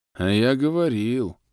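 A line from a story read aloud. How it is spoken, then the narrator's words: Sad prisoner's drawl. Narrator (Russian): грустно протянул другой заключенный с ником Сворд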